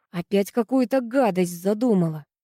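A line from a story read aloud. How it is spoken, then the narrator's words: Grumble. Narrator (Russian): проворчала Ира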